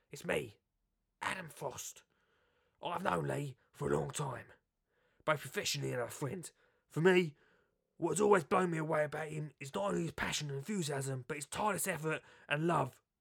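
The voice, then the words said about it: Impression of Adam Frost. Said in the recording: “Hello, it's me, Adam Frost. Weren't a good impression the other day, weren't it?”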